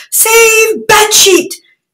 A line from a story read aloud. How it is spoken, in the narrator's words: shouted Prince Bolo